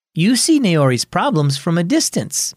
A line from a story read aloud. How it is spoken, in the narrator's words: Mom said